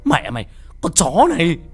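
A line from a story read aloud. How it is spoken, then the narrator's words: Yelling. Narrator (Vietnamese): tôi vừa gào lên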